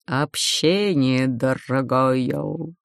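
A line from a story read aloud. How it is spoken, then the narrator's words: Growled. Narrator (Russian): Прорычав, Мрачнов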